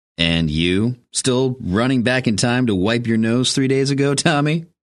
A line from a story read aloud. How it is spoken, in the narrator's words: Hambleton chuckled